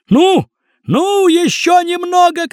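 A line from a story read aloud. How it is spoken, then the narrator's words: Shouting. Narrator (Russian): кричал Крендель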